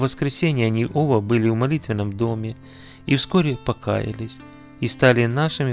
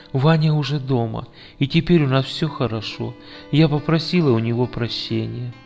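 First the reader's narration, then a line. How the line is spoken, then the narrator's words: Whisper. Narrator (Russian): она шепнула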